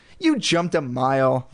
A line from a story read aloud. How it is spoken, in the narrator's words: Lindy exclaimed gleefully